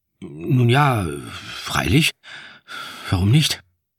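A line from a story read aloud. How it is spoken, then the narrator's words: Hesitant reply. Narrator (German): entgegnete ich zögernd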